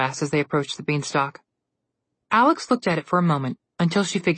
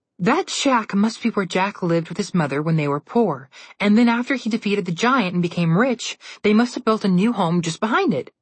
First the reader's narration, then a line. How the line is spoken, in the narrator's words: she said happily